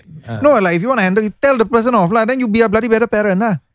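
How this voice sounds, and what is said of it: Accent coming through. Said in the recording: “I feel like my accent's coming out.”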